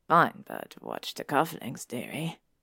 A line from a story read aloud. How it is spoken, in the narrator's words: Pig said in an absurdly deep voice